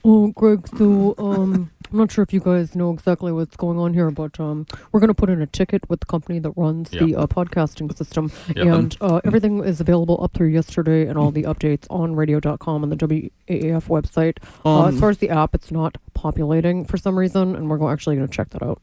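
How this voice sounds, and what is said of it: IT nerd character voice. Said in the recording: “in an IT nerd voice”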